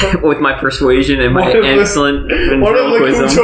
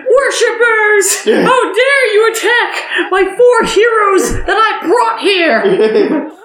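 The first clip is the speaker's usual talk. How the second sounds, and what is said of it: Put-on girl voice, sounds underwater. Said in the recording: “can you make my voice sound like a girl but underwater or something? ... this will be my girl voice ... Terrifying.”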